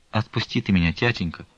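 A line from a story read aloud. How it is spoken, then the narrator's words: Quiet. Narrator (Russian): тихо заговорила Настя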